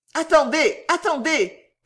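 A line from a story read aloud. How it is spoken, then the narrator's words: Shouted. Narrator (French): cria M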